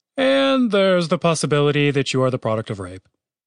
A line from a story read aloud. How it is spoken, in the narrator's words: Chaz paused and then added solemnly